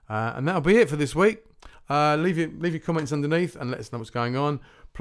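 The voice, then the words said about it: Voice sounds unwell. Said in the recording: “I've just not been well. You might be able to tell it by my voice.”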